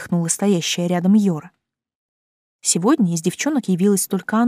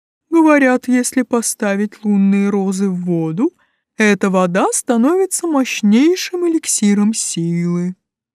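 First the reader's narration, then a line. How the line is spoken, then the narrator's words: Enthusiastic booming. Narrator (Russian): восторженно прогудел ящик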